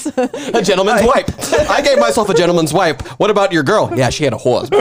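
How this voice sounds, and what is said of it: Usual voice. Nothing is said of it.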